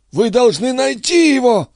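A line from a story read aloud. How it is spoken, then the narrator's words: Wheezing rasp. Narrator (Russian): просипела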